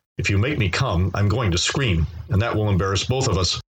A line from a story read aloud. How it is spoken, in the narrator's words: Des said to me in a very serious tone